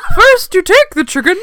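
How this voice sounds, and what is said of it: Imitates another person's voice. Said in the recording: “It's also your Julia Child.”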